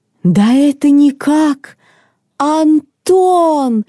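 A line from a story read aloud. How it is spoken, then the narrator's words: Old woman's exclamation. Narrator (Russian): воскликнула старушка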